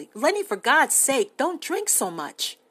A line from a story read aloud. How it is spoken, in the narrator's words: he said sharply